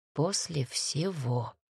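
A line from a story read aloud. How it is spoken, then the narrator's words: Muttering. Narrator (Russian): пробормотал Макс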